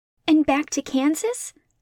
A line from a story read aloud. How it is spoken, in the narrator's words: she asked eagerly